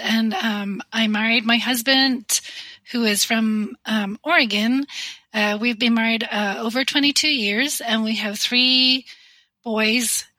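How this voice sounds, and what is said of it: Northern Irish accent. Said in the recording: “you are originally from Northern Ireland. So people may hear that in your accent”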